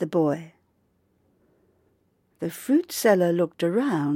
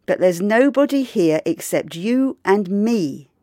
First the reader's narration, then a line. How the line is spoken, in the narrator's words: he said